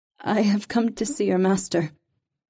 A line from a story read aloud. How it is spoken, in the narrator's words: Reva said shakily